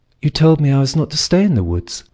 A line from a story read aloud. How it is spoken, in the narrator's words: said the boy calmly